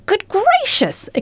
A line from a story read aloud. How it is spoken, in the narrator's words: exclaimed the man